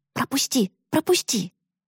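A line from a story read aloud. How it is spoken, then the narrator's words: Loud excited whisper. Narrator (Russian): Ричард Куин громко и взволнованно шептал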